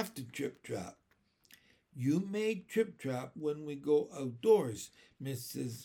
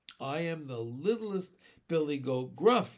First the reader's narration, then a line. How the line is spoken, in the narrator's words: exclaimed Ramona